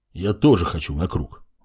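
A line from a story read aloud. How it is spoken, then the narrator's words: Grumbled. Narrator (Russian): буркнул Сарт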